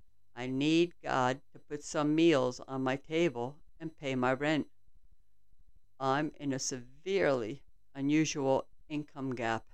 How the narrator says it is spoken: I teared up and quietly said

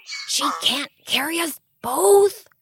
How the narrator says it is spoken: Matthias whisper shouted

